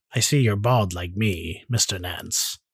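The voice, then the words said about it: Impression of a hitman character's voice. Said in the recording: “That was my uh, Agent 47 impression.”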